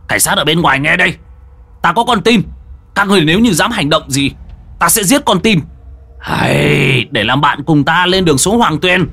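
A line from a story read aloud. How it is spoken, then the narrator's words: Shout. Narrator (Vietnamese): Hàn Tu quát lên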